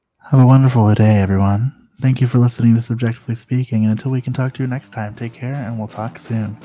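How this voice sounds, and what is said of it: Exaggerated sultry voice. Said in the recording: “our sultry voices ... Sultry, you say? ... I'll do my best impression”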